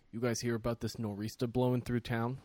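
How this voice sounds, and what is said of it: Attempted Boston accent, sounding Jersey. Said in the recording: “I don't know how to do a Boston accent. ... I feel like that wasn't bad. ... That was more Jersey. ... Jersey or New York.”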